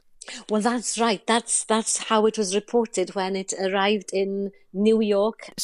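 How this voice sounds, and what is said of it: Welsh accent. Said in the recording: “it's lovely to have you and to hear that accent.”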